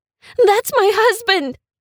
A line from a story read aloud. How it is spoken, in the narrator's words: screamed